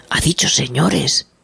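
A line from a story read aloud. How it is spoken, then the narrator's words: Woodpecker whispering. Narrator (Spanish): susurró el pájaro carpintero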